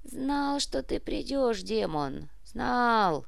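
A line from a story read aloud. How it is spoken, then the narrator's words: Sigh. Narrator (Russian): вздохнул Никодим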